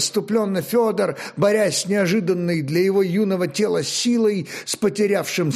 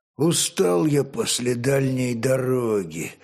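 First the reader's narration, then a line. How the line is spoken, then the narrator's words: Dull, muffled remark. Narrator (Russian): глухо обронил Олег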